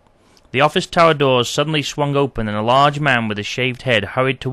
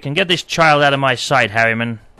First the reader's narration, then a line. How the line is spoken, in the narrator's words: snapped Patrick